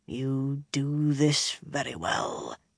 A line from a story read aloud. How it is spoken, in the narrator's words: Domon muttered